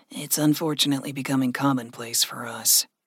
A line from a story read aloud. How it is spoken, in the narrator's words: Gregory grumbled